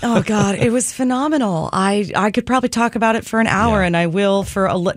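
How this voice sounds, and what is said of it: Dry, slightly worn voice. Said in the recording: “I still feel a little dried out. You might hear that in my voice.”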